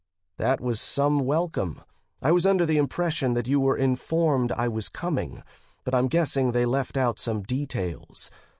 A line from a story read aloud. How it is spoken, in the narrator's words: the man said calmly